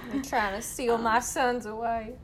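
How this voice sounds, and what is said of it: Put-on Southern US accent. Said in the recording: “I don't know why I gave her a southern accent.”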